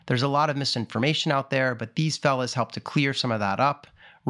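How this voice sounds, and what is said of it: Smooth, peppy plain American accent. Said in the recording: “has a very underrated voice. Smooth yet peppy ... I just have that plain old, American accent”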